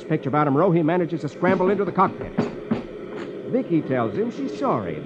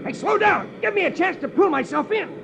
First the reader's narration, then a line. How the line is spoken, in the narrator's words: He shouts